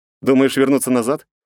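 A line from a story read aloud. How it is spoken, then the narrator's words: Skeptical snort. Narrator (Russian): хмыкнул я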